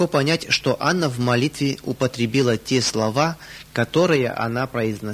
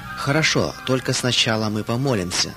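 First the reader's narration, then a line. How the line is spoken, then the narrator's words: Calm. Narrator (Russian): сказала она спокойно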